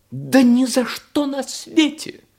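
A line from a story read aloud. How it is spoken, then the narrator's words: Exclaimed. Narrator (Russian): воскликнула ракета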